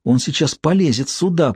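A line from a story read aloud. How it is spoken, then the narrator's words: Whisper. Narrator (Russian): прошептала Эбигейл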